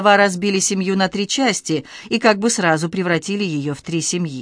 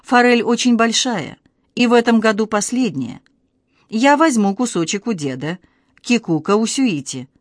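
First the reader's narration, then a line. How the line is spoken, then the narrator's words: Calm. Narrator (Russian): Ясука сказала спокойно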